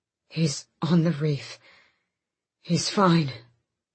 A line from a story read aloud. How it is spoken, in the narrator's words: Fenris panted